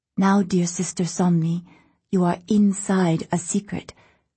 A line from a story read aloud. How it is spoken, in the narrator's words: whispered